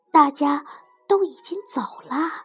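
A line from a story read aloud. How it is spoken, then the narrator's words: Very quiet interruption. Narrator (Chinese): 米洛尽可能低声的打断他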